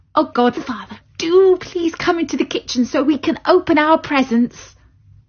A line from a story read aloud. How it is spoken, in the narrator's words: begged Clara